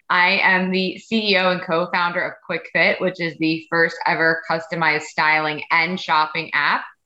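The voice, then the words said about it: New York accent. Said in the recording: “I am a true New Yorker. So my accent will definitely be coming out”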